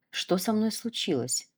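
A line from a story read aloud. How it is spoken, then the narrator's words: Whispered. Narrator (Russian): прошептала Оля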